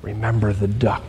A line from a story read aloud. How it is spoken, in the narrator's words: she whispers to him